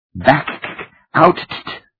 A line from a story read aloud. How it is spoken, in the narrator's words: Suppa wailed